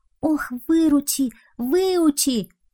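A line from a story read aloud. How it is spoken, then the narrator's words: Pleading. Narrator (Russian): взмолился Бобка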